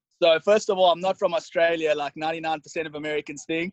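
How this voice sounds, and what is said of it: Slight South African accent. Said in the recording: “he has a little bit of an accent”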